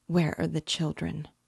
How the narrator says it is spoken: said in a faint voice

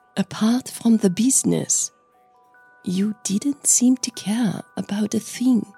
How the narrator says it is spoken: Lucille said softly

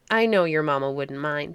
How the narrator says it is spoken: she said

